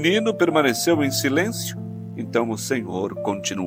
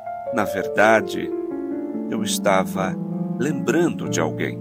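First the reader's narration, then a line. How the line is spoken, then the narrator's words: Tearful choked voice. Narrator (Portuguese): O homem respirou profundamente, seus olhos encheram de lágrimas e respondeu com a voz embargada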